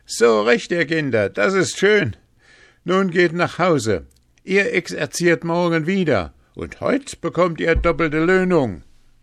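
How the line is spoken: Calling out laughing. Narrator (German): Da wollte Hans sich totlachen und rief

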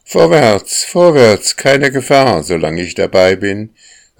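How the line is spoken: Called out. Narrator (German): rief die Sonne

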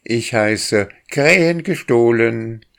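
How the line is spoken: Boy shouting. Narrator (German): schrie der Junge

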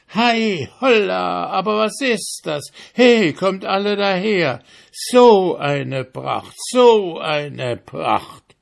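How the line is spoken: Shouting again. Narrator (German): schrie er abermals

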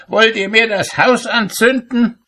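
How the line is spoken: Shout. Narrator (German): schrie er

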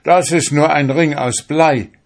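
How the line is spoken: Scream. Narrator (German): schrie er

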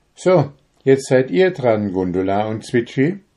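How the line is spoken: Owl calling out. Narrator (German): rief die Eule

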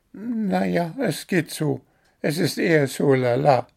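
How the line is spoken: Squeaky, dissatisfied. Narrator (German): piepste unzufrieden

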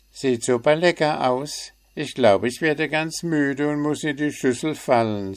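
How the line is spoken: Plain. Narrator (German): sagte Willi

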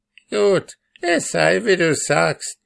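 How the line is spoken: Grim old woman's call. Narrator (German): rief die Alte mit grimmigem Blick

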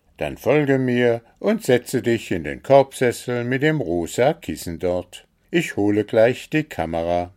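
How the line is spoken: Cheerful. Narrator (German): sagte Wuschel fröhlich

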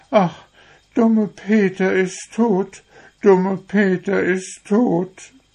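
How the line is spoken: Inconsolable girls sobbing. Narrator (German): Nun wurden die Mädchen ganz traurig und waren gar nicht zu trösten, schluchzten immer

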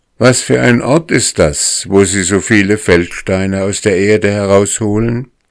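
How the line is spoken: Boy shouting down loudly. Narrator (German): Der Junge rief aus vollem Halse hinab

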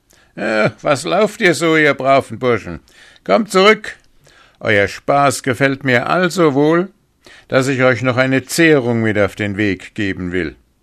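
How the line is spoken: Falsely friendly call after. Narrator (German): weil er ein böser, heimtückischer Mann war, rief seinen Gästen mit freundlicher Stimme nach

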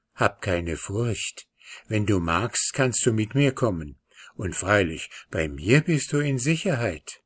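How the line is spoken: Gentle whisper. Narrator (German): Vanya … flüsterte

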